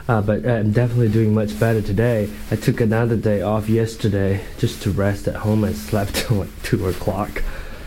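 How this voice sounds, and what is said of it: Hoarse, low voice. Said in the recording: “I still sound a little hoarse, a little low, my voice. ... I lost my mid-range.”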